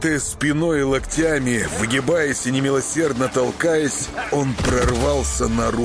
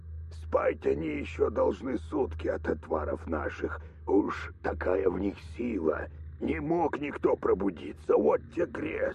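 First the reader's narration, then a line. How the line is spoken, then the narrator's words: Hurried fawning old man. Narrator (Russian): дед быстро лебезил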